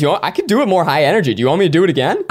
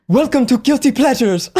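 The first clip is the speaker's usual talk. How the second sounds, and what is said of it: Put-on accent, sounds African. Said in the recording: “I tried to do her accent and I kind of sounded like an African drug lord.”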